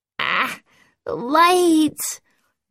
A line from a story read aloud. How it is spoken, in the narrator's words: Bess whimpered from the other bed